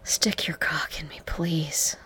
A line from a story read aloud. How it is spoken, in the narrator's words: urged, panting desperately